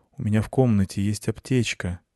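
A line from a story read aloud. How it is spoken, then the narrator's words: Quiet. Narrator (Russian): сказала она тихо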